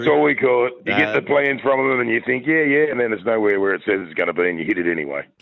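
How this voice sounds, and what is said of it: Strong radio-style voice. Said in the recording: “You got a real strong radio voice there. ... That's where most of this voice comes from, that and cigarettes.”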